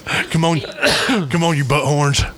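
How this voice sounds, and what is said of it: Imitates another person's voice. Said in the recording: “you didn't know I could do a Gary Busey impersonation, did you?”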